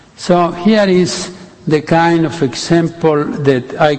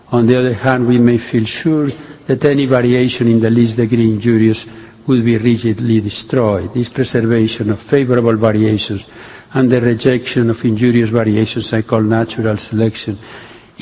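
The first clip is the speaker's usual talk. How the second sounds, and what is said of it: Put-on Spanish accent. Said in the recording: “Darwin didn't write that with a Spanish accent... I did that for color.”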